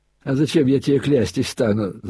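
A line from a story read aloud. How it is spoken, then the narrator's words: Laughing. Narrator (Russian): засмеялась Агафья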